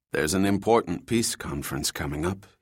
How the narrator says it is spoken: said softly

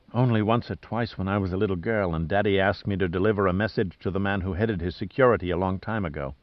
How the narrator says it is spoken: she replied in a soft murmur

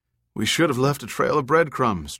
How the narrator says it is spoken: Trout said wistfully

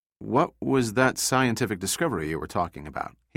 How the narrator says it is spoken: he asked Skye

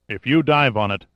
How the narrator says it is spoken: Sandecker said coldly

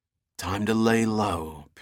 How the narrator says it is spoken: Pitt whispered

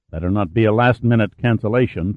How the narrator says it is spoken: Pitt said sharply

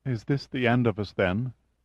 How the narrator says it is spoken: She asked in a choking voice

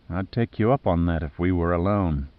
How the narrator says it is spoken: she said in a sultry voice

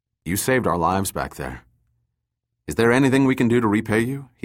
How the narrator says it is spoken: he asked

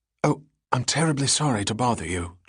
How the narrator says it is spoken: Julie whispered

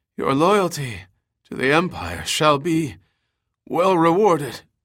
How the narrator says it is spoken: Kublai gasped, coughing up a mouthful of liquid

